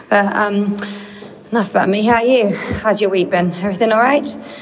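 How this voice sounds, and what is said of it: Out of breath, panting voice. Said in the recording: “I'm a bit out of breath because I just ran up the stairs to get to the platform.”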